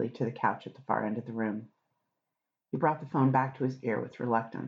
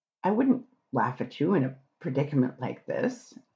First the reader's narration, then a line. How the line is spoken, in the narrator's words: Aziraphale said through his laughter